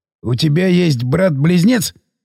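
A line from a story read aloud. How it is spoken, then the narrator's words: Joking. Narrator (Russian): сострил Сиплый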